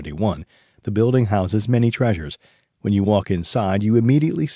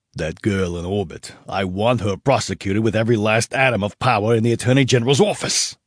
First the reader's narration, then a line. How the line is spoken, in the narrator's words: the governor spat at his AG